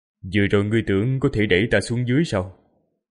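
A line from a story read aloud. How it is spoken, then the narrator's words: Indifferent detached voice. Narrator (Vietnamese): Với giọng nói hờ hững, phảng phất như chẳng có gì trên đời có thể khiến cho người này quan tâm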